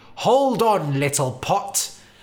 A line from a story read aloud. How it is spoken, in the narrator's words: the builder cried